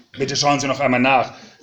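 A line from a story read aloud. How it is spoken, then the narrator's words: Raised voice. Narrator (German): sagte ich mit erhobener Stimme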